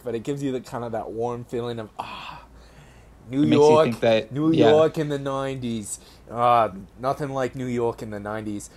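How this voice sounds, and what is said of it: Put-on New York accent. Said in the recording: “I'm actually doing a pretty good New York accent right now.”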